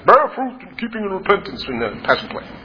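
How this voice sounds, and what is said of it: Imitates another person's voice. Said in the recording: “I picture my father-in-law, John the Baptist ... That's a good impression. That was pretty good.”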